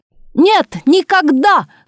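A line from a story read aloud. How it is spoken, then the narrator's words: Loud shout from audience. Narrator (Russian): громко крикнула из зала Олимпиады Савельевна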